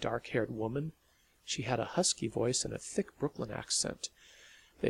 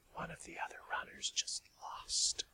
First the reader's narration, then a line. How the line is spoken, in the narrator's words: whispered